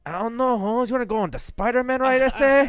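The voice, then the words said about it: Put-on cholo accent. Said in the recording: “Grinch Cholo? ... can I do the accent?”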